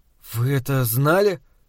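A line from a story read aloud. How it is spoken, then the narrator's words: Dejected voice. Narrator (Russian): спросил я упавшим голосом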